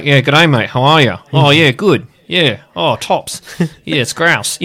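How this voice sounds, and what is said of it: Broad Australian accent, clenched mouth. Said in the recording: “the Australian accent ... they spoke with their mouths clenched so flies wouldn't get in”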